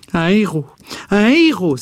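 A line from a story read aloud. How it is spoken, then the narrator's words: Repeated exclamations. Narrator (French): s'écria-t-elle plusieurs fois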